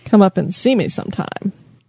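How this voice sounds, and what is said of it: Imitates another person's voice. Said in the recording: “It's like Mae West. ... Here goes ... with accents again.”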